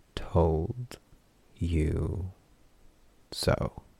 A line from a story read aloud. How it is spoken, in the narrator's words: she said, slowly, dramatically savoring the moment